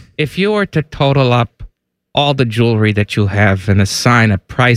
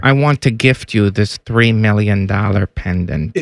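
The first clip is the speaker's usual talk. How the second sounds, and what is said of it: Imitated voice sounding like Dr. Evil. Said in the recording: “my Coach K impersonation ... Why do you sound... ... Why does he sound like Dr. Evil?”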